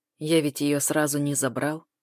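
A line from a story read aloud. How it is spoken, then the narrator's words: Gloomy. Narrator (Russian): выговаривает Луневич мрачно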